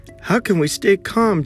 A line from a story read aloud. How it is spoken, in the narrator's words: Chen cried